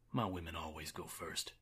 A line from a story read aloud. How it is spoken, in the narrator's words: he whispered